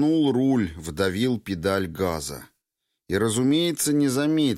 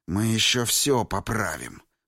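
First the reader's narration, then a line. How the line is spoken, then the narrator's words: Hiss. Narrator (Russian): прошипел он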